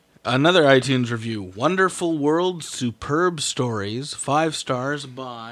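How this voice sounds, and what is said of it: Usual voice. Nothing is said of it.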